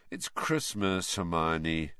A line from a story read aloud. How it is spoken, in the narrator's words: said Harry lazily